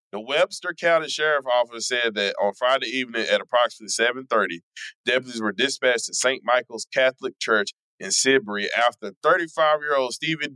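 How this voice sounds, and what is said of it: Put-on Kentucky Southern accent. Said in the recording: “You don't have to just do regular Texas accent ... Well, this is Kentucky, so I'm doing a Kentucky accent.”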